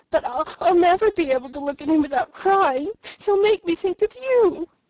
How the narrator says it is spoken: sobbed Felicity

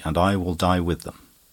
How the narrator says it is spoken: says my wife calmly

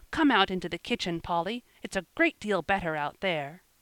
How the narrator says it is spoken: cried Joel

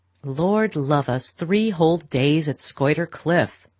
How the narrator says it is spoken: Beaufort was saying in his loud, sneering voice

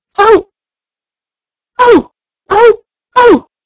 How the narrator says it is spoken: they cried

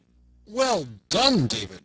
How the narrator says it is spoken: cried Robin

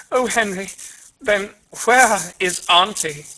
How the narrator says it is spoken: The maiden said wildly

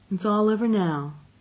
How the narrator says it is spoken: she said soothingly

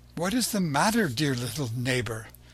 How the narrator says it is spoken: Seeing Pinocchio so grief-stricken, she asked him, anxiously

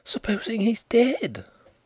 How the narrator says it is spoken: Nelly breathed, aghast

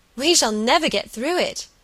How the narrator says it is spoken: cried

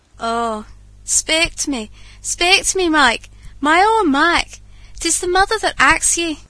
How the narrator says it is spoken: she exclaimed amid broken sobs and groans

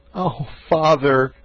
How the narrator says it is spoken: said he, sobbing

